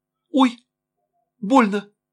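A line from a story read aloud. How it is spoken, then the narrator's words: Startled, slightly frightened cry. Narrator (Russian): вскрикнула Лена, слегка испуганная, чем обрадованная возникшей чувствительностью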